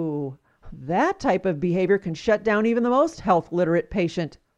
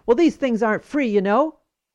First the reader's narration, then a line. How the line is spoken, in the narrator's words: the nurse barked